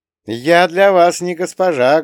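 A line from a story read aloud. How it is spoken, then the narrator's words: Loud, addressing everyone. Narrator (Russian): громко произнесла Молли, обращаясь ко всем сразу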